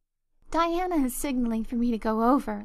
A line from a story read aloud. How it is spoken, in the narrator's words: laughed Anne